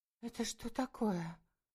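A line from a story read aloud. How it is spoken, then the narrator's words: Breathy female gasp. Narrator (Russian): выдохнула Лика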